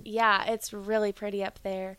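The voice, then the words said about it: Carolina Southern accent slipping out. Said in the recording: “Your accent just came out ... She let a little bit of that Carolina out ... You went all the way out”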